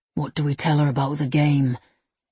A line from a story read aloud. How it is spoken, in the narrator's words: asked hoarsely